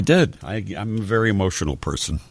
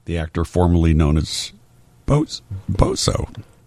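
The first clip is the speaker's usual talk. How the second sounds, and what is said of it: Choked-up, emotional voice. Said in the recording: “You almost got all choked up there.”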